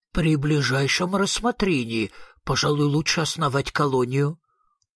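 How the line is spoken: Dejected voice. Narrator (Russian): упавшим голосом ответил

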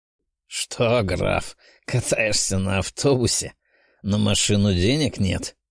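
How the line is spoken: Nasal mocking laugh. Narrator (Russian): гнусавенько засмеялся Михась

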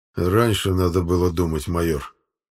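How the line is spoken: Through gritted teeth. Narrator (Russian): Сквозь зубы процедил Аббас

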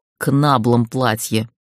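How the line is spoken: Growl. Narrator (Russian): прорычал он

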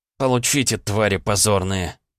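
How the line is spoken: Angry mutter. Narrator (Russian): зло пробормотал я

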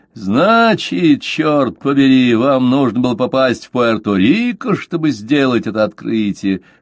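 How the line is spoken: Hoarse laughing retort. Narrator (Russian): хрипло расхохотавшись, отпарировал

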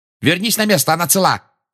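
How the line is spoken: Bark. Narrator (Russian): рявкнула Анжелина

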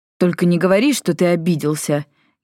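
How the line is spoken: Irritated sigh. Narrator (Russian): Гекадас раздраженно вздохнул

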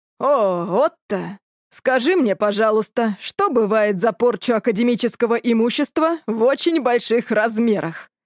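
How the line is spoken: Growling huge dragon. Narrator (Russian): Прорычал огромный золотой ящер

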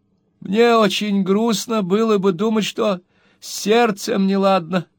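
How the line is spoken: Old lady's weak moan. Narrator (Russian): слабо простонав, проговорила старая леди

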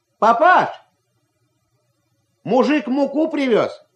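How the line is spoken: Shout. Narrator (Russian): крикнул Ваня

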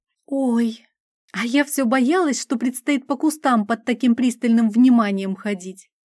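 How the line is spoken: Relieved exhale. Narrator (Russian): С явным облегчением выдохнула Грета

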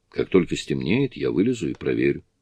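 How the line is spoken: Plain. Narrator (Russian): сказал Джонатан

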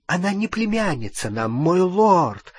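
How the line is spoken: Exclaiming over cheerful din. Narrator (Russian): воскликнула Беллатриса, перекрикивая веселый гам

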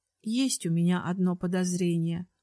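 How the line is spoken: Sigh turning to smile. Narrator (Russian): вздохнула я, тут же начиная улыбаться

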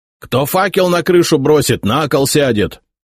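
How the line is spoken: Officers yelling. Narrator (Russian): орали офицеры

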